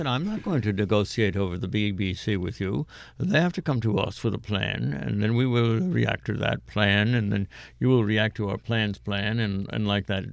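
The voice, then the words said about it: Imitated pompous European official's accent. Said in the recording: “sort of pompous guy ... Probably just the accent ... I'm just enjoying the accent.”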